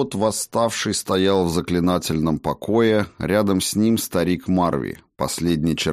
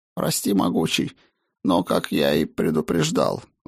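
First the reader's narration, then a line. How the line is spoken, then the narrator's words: Sighing. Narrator (Russian): вздохнул он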